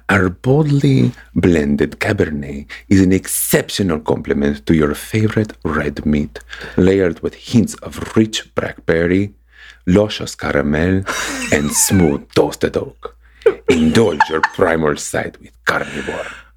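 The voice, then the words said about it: Put-on Antonio Banderas accent. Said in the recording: “I'm so glad you said it with an accent ... I felt very Antonio Banderas.”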